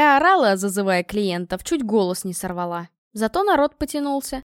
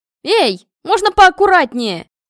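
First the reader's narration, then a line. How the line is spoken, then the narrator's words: Yelling. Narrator (Russian): завопила я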